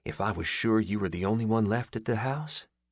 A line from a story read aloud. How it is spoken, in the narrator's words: he muttered